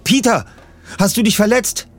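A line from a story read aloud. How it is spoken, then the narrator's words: Calling out. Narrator (German): rief Bob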